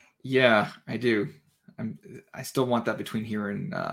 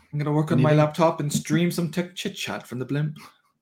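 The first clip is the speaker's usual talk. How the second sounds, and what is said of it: Put-on British accent. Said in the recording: “why am I using a British accent?”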